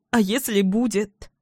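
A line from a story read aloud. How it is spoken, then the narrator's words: Sobbing, tearful. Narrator (Russian): Всхлипываю, уже не в силах сдерживать слезы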